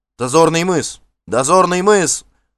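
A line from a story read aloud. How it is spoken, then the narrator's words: Distant shouting. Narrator (Russian): закричали на носу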